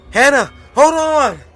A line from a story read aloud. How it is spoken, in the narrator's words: She screamed